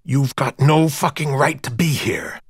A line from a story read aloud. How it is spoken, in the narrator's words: he hissed